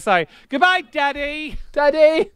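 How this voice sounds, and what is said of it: Put-on English boy accent. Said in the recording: “I'm doing an accent. I'm an English boy.”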